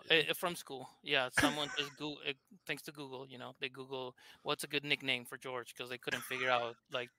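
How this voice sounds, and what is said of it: Thick Argentine Spanish accent. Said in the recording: “I'm from Argentina, hence my thick accent”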